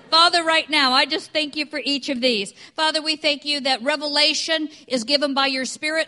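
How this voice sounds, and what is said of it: Non-English accent, fast speech. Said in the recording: “this is not an English accent, even though I have lived here for 20 years ... I can talk fast”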